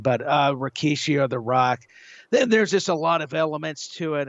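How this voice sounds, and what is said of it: Voice giving out, hoarse. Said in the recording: “pardon me, I'm losing my voice all of a sudden.”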